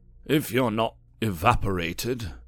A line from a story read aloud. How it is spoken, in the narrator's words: he sighed